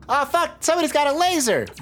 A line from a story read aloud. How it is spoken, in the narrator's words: Vern shouts